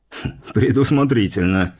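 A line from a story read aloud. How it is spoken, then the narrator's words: Snort. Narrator (Russian): хмыкнул Столыпин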